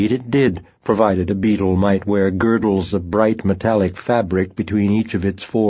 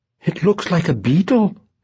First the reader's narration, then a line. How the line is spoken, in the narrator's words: the cook exclaimed